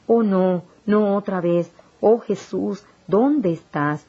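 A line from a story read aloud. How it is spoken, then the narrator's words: Exclaiming. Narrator (Spanish): Exclamé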